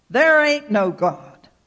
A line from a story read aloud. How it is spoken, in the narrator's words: he would shout back